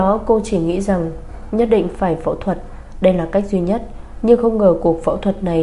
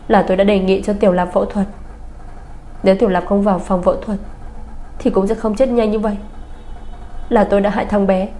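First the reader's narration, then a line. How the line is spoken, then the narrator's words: Sudden sobbing. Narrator (Vietnamese): Bạch Tinh Nhiên đột nhiên òa khóc nức nở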